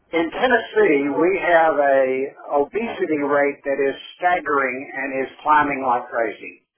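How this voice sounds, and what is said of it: Southern US accent. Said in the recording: “can hear the evidence of my southern accent, which I'm quite proud of”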